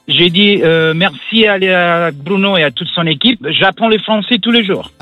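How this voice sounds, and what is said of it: Italian accent speaking French. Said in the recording (French): “Ton accent est superbe ... l'accent italien”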